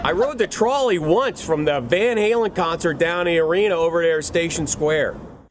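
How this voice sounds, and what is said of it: Bad put-on Pittsburgh accent. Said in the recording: “Yin's guys have a bad accent ... I never knew Pittsburgh”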